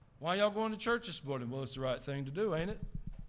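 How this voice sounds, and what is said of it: Exaggerated Southern accent. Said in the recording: “This is my Southern accent, in addition to my existing Southern accent. ... That was a little too much”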